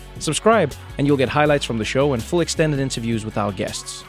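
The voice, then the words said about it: South African accent. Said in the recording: “my South African accent, words like aluminium and vitamins”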